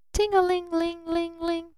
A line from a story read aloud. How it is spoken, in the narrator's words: chirped the bell right in his face